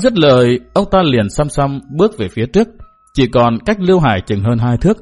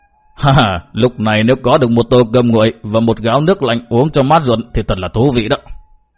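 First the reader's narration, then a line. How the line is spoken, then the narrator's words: Old man muttering. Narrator (Vietnamese): Ông già nọ lẩm bẩm nói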